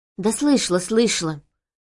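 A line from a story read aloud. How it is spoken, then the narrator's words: Frightened reply. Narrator (Russian): испуганно ответила я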